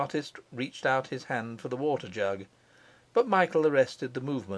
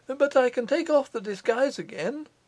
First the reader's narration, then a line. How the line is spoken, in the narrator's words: he suggested, eagerly